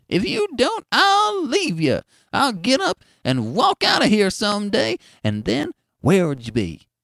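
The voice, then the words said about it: Cracked, squeaky old woman's voice. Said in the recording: “his wife would caution him in a cracked and squeaky voice.”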